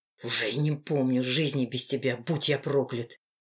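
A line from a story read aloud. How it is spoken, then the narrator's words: Whispered through teeth. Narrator (Russian): прошептал сквозь зубы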